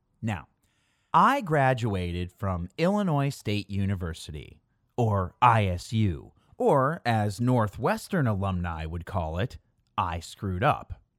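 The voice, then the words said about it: Chicago accent with hard A. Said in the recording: “30 miles outside of Chicago, if you couldn't tell from my hard A accent.”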